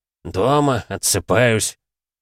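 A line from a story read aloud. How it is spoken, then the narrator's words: Colonel mumbling. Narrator (Russian): пробурчал полковник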